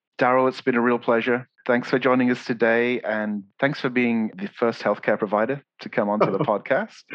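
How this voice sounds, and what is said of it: English accent. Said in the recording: “I can listen to your accent like all day ... I love talking to my family in England just because of this.”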